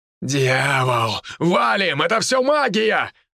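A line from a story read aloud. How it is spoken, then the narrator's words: Shouted. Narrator (Russian): выкрикнул генерал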